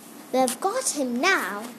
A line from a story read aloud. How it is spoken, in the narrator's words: said Joe